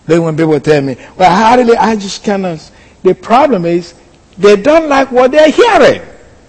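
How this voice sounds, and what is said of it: Speaks with a noticeable accent. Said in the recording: “I understand I speak with my accent.”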